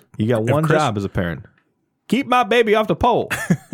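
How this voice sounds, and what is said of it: Bad Chris Rock impression. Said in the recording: “The worst Chris Rock impression ever. ... That was a Chris Rock impression? ... Terrible.”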